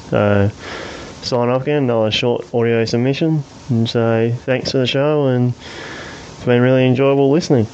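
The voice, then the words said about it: Australian accent. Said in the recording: “That's a proper Australian accent. ... he's a fair income Aussie.”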